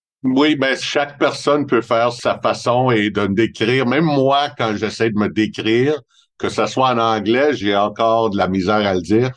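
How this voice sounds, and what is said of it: Montreal French accent. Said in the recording (French): “mon accent de Montréal ... j'ai vraiment un accent de Montréal”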